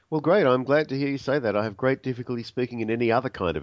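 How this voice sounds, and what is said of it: Australian accent. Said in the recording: “part of the fun is your accent... now we have an Aussie on the program”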